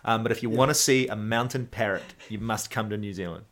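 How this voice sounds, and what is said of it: New Zealand accent. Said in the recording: “now again the accent. I'm sorry. I'm saying parrot and not pirate.”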